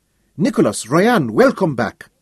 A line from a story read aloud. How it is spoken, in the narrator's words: Tessé cried